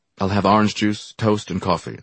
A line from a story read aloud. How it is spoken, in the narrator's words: I said coldly